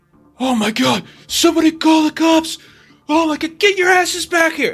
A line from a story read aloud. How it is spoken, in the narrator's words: You hear the voice of whoever's chasing you scream out